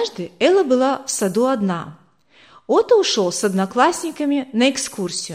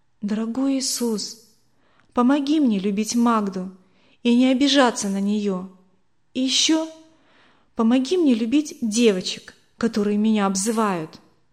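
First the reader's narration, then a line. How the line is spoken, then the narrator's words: Sincere whisper. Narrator (Russian): она искренне шептала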